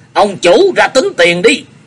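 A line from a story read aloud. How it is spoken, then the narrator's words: Loud wild shouting. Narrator (Vietnamese): Mình Đấu hét hoang hoang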